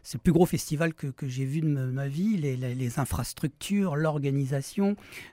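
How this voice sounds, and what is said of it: Noticeable regional accent. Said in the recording (French): “vous avez remarqué que j'ai un accent”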